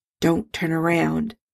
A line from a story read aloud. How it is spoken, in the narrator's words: Bones muttered, discreetly covering his mouth with a napkin